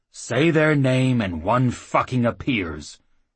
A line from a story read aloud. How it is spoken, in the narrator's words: the claymaster groaned